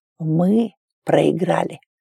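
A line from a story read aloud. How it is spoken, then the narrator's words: Hoarse repetition. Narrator (Russian): хрипло повторил он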